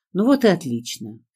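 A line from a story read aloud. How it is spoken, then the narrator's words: Pleasant voice. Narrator (Russian): Все тем же приятным голосом откликнулся мой спаситель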